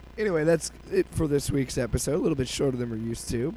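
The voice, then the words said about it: Hoarse, fading voice from a cold. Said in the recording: “As you can tell, I've been battling a cold and losing my voice.”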